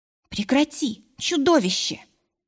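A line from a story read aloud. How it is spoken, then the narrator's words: Hissing. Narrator (Russian): зашипела я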